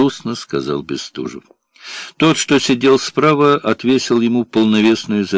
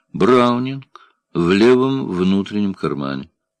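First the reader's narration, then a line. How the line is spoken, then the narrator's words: Almost calm. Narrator (Russian): сказал почти спокойно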